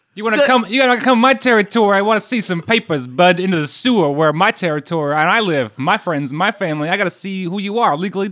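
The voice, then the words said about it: New York street rat voice. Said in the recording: “How about like a New York, New Jersey like street rat?”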